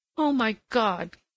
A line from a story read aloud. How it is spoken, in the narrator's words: cried the girl tear-stained